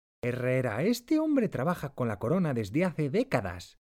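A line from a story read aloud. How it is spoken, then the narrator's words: Exclaimed. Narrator (Spanish): Pinzón exclama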